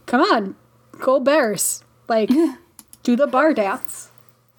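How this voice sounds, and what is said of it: Bad put-on Chicago accent. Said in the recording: “murdering your accent ... our Midwestern listeners are going to be like, "What the fuck?"”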